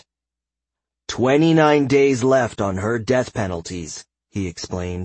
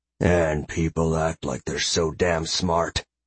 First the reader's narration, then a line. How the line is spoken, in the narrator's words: Aleph grumbled